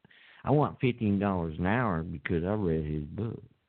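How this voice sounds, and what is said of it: Put-on redneck accent. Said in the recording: “Now I'm doing my redneck accent.”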